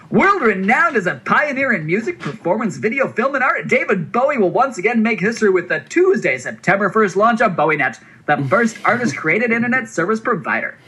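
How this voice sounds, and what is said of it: Hyped-up carnival barker announcer voice. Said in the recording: “I'm going to use a hype voice. ... like a carnival barker ... Yeah, somewhere in that neighborhood.”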